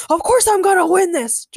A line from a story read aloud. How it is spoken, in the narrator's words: Jorgen shouted